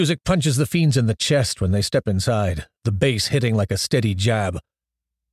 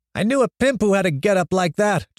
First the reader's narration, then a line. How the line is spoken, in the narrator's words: Johnny shouts in Pedro's ear